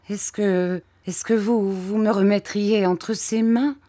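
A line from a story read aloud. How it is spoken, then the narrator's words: Stammering question. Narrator (French): demandai-je en balbutiant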